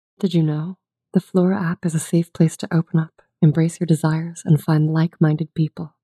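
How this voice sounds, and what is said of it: Sultry female voice. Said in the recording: “do a sultry female voice”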